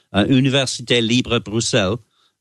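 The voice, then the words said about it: French accent pronunciation. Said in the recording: “I hope you like my accent there... very good”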